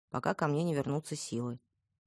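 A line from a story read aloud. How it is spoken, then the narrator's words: Gloomy. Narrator (Russian): мрачно отозвалась я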